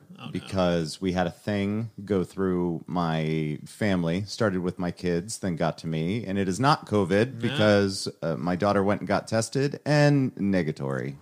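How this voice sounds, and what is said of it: Hoarse, rough voice. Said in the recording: “my voice is a little burnt ... it's just a sore throat ... Super sexy voice”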